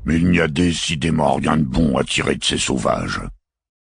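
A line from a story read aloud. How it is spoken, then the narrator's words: Grumbling. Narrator (French): grommela le cardinal Kill, gouverneur de la planète Platonia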